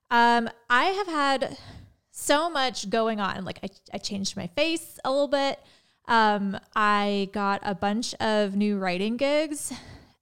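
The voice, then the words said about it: Nasal-sounding voice. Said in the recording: “my voice sounds kind of nasally ... That's why my voice is weird”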